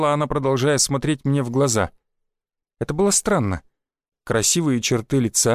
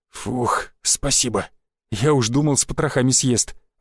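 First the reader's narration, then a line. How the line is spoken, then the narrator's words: Relieved exhale. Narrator (Russian): выдохнул Шишаков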